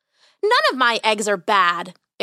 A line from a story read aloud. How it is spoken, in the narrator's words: exclaimed Dolores